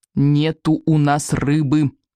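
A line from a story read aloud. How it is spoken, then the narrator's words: Through gritted teeth. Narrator (Russian): повторил Икинг сквозь зубы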